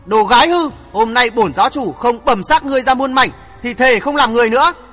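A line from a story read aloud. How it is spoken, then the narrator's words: Glaring, fierce shout. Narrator (Vietnamese): Dư Bình Nam cũng quắc mắt thét bảo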